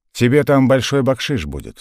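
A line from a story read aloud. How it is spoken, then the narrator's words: Plain. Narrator (Russian): сказал он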